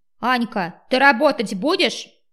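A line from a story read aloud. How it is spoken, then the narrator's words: Shout across the hall. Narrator (Russian): крикнул на весь зал незнакомый мне бармен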